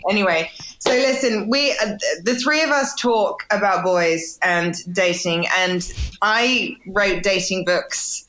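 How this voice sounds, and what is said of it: English accent. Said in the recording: “my accent is it takes probably an extra hour out of my day in America as opposed to in England ... they're like, sorry, what? ... they don't know what I'm saying”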